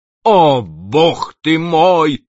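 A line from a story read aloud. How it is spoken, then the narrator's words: Terrified shout. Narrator (Russian): крикнул в ужасе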